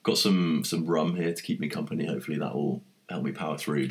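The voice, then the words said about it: Nasal, congested voice. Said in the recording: “I've got a bit of a cold, so I sound a little nasal.”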